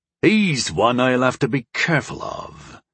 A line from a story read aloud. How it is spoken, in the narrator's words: a voice rumbled when the cheering died down